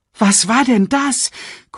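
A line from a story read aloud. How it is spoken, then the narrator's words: Gasping. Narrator (German): keuchte Nala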